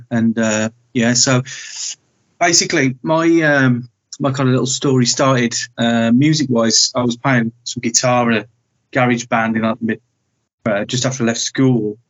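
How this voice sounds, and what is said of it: Midlands English accent. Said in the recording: “I detected a Midlands accent there”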